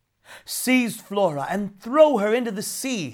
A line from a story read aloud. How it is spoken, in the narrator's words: cried